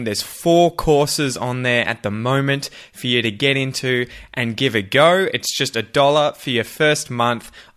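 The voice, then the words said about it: Australian English accent. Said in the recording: “speak Australian English, whether it's with our accent”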